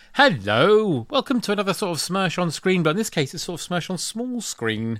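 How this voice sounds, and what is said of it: Usual voice. Nothing is said of it.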